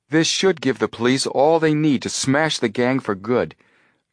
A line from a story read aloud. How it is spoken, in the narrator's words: Joe exclaimed